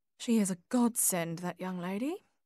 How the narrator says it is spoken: murmured Edna

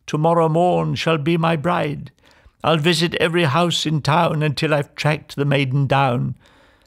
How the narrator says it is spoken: he cried

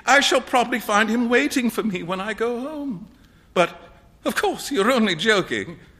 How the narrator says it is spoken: cried Huey

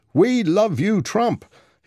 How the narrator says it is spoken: He shouted it over and over again

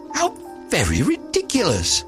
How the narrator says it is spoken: the little lizard, who was something of a cynic, laughed outright

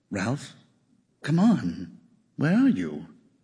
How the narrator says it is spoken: Ebling sighed

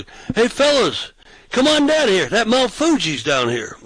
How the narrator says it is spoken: So I yelled down the sidewalk

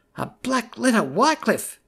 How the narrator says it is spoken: murmured

